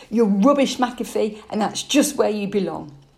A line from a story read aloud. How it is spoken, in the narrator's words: Torry couldn't resist the temptation to shout back